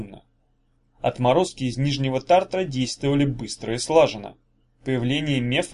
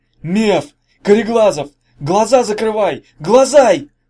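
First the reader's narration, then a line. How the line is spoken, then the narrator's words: Yelling at full strength. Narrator (Russian): Заорал он, что было мочи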